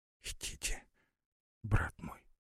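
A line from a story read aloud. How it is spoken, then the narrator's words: Whisper. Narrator (Russian): прошептала Лара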